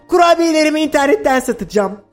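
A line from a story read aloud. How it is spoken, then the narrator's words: Shouted. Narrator (Turkish): diye bağırdı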